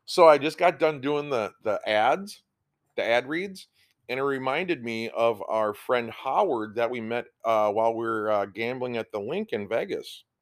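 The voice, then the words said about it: Boston accent. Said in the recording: “I've been listening to so much Bill Burr that I got this Boston accent going on.”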